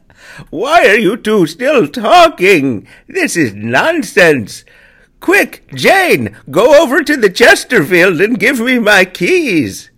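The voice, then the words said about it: Old man voice. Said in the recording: “the old man voice”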